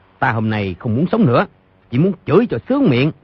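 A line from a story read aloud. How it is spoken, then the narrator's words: Angry shout. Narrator (Vietnamese): Doãn Chí Bình trợn mắt tức giận quát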